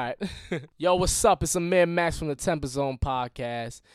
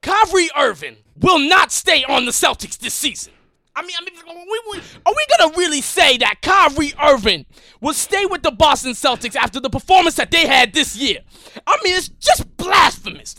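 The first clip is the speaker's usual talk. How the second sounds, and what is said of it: Stephen A. Smith impression. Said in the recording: “your best Stephen A impression”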